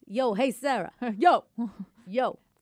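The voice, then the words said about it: Put-on New York accent. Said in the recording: “you can always practice your New York accent”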